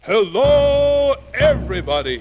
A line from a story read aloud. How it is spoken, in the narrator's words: boomed out in a big, friendly sort of way